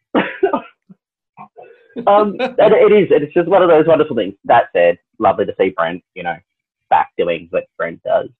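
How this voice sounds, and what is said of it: Australian accent. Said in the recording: “I don't know if you've noticed the accent, Australia.”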